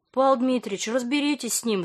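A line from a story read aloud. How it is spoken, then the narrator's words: Pleading. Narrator (Russian): взмолилась Света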